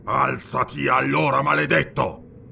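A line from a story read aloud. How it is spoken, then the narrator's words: Roared. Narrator (Italian): ruggì Postumo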